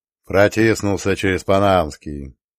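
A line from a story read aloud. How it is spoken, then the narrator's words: Grumbling. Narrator (Russian): проворчал Мехти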